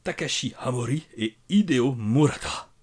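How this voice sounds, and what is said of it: Put-on Japanese accent. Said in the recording (French): “il faut le dire avec l'accent de Ramoud ... Ton accent japonais me subjugue.”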